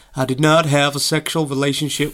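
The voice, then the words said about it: Imitates another person's voice. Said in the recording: “my Bill Clinton impression”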